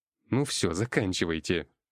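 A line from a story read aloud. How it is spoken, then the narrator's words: Grumble. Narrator (Russian): проворчал я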